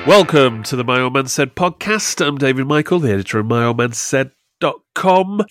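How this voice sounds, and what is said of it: Congested, bunged-up voice. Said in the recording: “You sound a bit poorly... I've got a cold. I'm all bunged up.”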